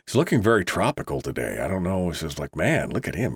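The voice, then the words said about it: Unusually deep morning voice. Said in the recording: “Is this Deep Voice Tuesday? Yes, it is. Some mornings are better than others when it comes to that.”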